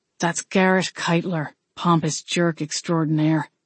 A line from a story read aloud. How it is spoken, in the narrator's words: Wade muttered